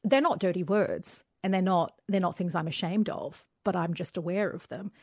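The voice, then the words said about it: Australian accent. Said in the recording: “I have an Australian accent, not an Arab accent.”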